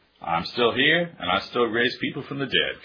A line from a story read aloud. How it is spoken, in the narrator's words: Carol says